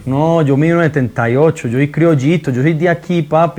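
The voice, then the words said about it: Colombian Spanish accent. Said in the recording (Spanish): “Me encanta cómo habla Maluma, güey, el acento colombiano. Sí, qué buen acento.”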